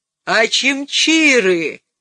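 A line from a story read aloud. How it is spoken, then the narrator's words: Roaring. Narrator (Russian): проревел он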